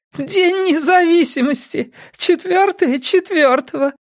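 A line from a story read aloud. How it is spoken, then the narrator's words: Giggling woman shouting. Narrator (Russian): Хихикающая женщина крикнула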